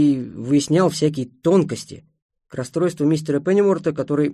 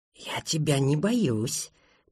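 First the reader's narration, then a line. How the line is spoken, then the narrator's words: Whispering. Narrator (Russian): прошептал Фартинг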